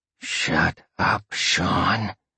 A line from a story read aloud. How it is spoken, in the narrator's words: Roxy growled softly in his ear